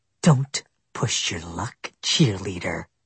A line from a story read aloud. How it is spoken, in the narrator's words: Nichelle growled